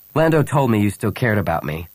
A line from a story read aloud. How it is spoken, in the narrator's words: Han said coldly